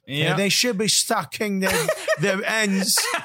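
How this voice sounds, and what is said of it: Put-on English accent. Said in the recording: “I hurt my throat. ... I was just in an episode of Top Boy. ... that Liverpool accent can hurt you, buddy.”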